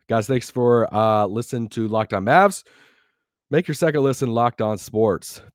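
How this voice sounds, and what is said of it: Strained, failing voice. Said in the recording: “My voice is literally about to die.”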